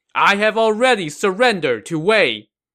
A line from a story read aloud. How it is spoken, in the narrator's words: From atop the walls, his second-in-command Jiang Shu shouted